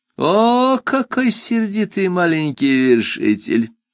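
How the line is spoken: Ironic drawl, giant. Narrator (Russian): иронично протянул великан

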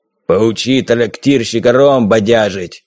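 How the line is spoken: Sharp interruption. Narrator (Russian): резко оборвал говоривший Харрис

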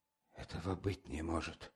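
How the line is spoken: Numb stunned muttering. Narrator (Russian): бормотала Дунечка бледными, помертвевшими губами

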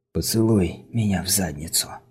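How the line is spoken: Whisper. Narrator (Russian): прошептал

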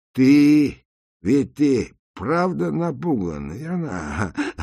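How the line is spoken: Laughing. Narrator (Russian): засмеялся Макс

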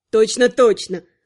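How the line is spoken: Snorting. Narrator (Russian): фыркнула Инара

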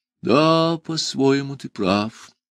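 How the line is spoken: Sad. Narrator (Russian): грустно подтвердил сэр Нанка

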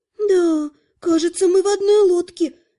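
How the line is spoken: Gloomy exhale. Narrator (Russian): мрачно выдохнула полуэльфийка

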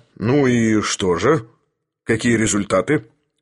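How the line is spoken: Stern question. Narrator (Russian): строго спросил Филипп Филиппович

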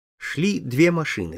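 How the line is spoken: Plain. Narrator (Russian): сказал Михаэльс

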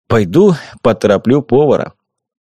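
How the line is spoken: Sighing. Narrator (Russian): вздохнул и сказал

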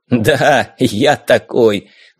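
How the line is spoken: Loud laughter. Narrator (Russian): захохотал Калли

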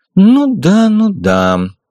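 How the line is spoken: Sighing old man. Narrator (Russian): старик вздохнул

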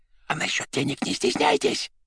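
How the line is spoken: Whispered addition. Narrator (Russian): шепотом добавил он

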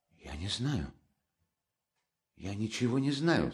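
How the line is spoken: Weak voice. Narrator (Russian): слабым голосом проговорила наконец Соня

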